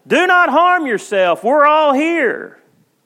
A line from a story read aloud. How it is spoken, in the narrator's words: Paul shouted